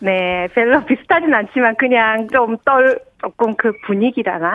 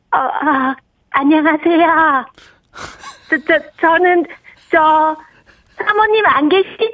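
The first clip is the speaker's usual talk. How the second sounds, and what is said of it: Imitates another person's voice. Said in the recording (Korean): “그 굉장히 어려운 성대모사인데 ... 약간은 비슷해서”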